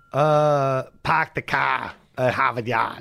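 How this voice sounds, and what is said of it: Put-on Boston accent. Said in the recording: “You have a Boston accent?”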